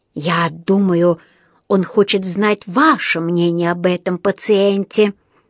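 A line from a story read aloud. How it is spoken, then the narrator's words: Hissed into the ear. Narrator (Russian): прошипел Паддингтону на ухо один из врачей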